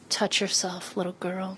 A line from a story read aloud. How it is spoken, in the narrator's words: you whisper